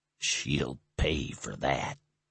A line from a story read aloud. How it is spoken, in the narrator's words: he muttered